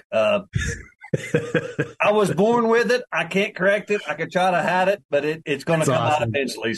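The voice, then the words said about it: West Virginia Appalachian accent. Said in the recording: “I'm from West Virginia. I'm the state that's wholly in the Appalachian Mountains ... I apologize for my accent. I've been talking all morning, and it gets worse as I talk.”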